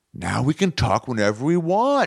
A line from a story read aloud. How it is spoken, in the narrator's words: she'd said